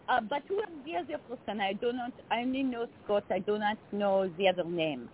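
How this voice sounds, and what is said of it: Put-on French accent. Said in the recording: “You played a foreign a French exchange student. Would you be willing to do our names with that accent? ... Totally talk like this.”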